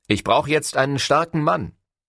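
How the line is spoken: Calling backward. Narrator (German): rief nach hinten

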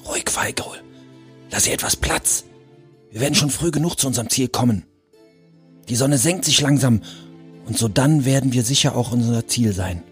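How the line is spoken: Whispered. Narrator (German): Schlachtgol flüsterte

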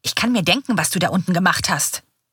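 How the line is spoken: Hissing. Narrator (German): faucht er mit schmalen Augen

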